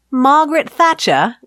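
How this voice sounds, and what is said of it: Put-on British accent. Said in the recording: “that's not an Australian ... I don't even know what accent I'm doing. ... You did British.”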